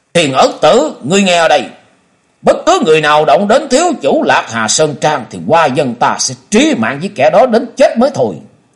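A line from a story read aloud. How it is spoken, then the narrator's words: Furious growling voice. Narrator (Vietnamese): Hoa Dân ở trong lòng còn bực tức, càng giận dữ, gằn giọng nói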